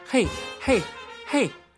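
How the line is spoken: Shouting. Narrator (Chinese): 司仪也在大喊

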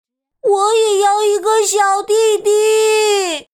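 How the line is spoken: Disappointed shout. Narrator (Chinese): 卡梅利多遭到拒绝后，他失望的大喊

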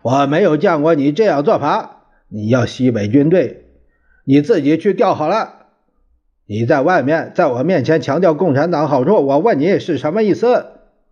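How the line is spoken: Furious shouting. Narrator (Chinese): 蒋介石无名火起了三千丈，大叫着

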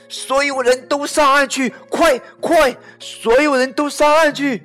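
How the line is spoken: Urgent shouting. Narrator (Chinese): 救生员大喊

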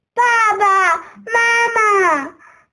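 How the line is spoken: Repeated calling. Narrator (Chinese): 他不断的叫啊叫

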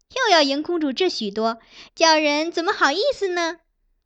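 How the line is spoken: Women laughing. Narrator (Chinese): 周姑娘与徐姑娘相继下注，也都笑道

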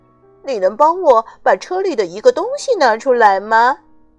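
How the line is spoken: Smiling. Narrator (Chinese): 他说着，露出了微笑

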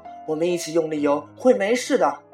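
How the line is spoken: Shouting. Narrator (Chinese): 女友大叫

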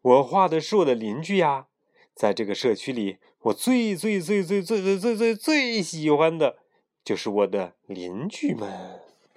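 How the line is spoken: Laughing. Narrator (Chinese): 富兰克林笑了，说

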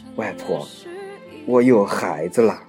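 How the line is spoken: Soft murmuring. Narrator (Chinese): 女主角……喃喃地说

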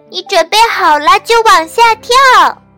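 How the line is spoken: Loud shouting. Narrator (Chinese): 其他玩具对小憨大声喊

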